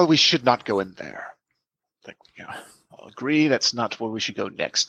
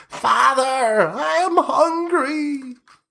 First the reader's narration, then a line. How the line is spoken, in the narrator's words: you can hear the screams